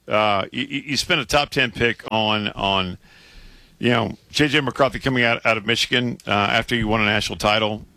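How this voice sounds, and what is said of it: Hoarse, strained, failing voice. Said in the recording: “I'm losing my voice. ... your voice is struggling a little bit.”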